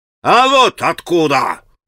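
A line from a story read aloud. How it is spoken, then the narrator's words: Shout. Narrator (Russian): крикнул он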